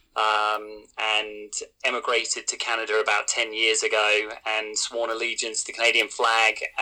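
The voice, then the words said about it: British accent. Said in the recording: “I have a bit of a funny accent. I'm originally from the UK.”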